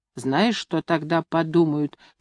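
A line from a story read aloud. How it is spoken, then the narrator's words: Quiet question. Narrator (Russian): тихонько спрашивала она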